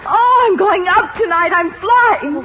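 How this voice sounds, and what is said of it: Excited screaming. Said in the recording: “Why are you screaming?”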